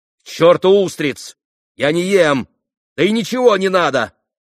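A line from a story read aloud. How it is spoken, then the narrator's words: Snapping, almost vicious. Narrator (Russian): почти злобно огрызнулся Петр Ильич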